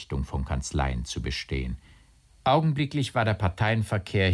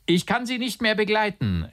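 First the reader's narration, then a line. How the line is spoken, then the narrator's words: Laughing call. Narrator (German): rief der Maler lachend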